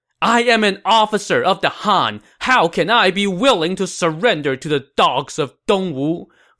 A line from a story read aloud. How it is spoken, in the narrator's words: Fu Tong said angrily